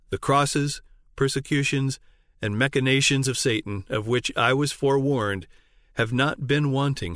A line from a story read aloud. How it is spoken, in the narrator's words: said